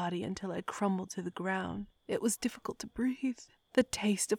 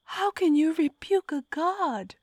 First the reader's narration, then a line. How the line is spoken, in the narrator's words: I howled, clutching my torn fingers over my aching belly